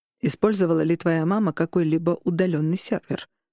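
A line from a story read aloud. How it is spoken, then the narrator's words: Plain. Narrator (Russian): спросил Берн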